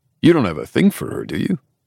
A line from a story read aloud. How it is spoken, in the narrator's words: I scoff